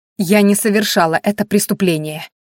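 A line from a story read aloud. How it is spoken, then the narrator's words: Sharp declaration. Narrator (Russian): резко заявила она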